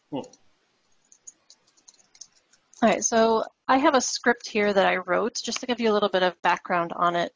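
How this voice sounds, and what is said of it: Raspy voice. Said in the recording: “my voice is getting a little raspy. I do have a little bit of a cold.”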